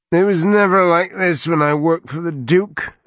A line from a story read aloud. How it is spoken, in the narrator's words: Arik moaned